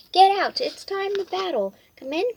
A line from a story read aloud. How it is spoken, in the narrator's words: cried the king with a boom, boom, boom